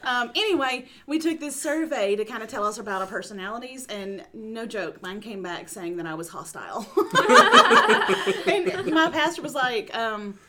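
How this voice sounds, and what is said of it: East Texas accent. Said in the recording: “It's in Texas. East Texas, by the way. ... about my accent?”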